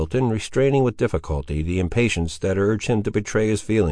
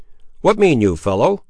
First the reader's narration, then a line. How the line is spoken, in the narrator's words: exclaimed Middleton